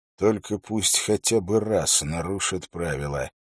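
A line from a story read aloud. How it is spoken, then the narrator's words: Muttering. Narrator (Russian): пробормотал он Уиллу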